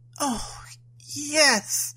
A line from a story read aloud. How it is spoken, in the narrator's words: gasped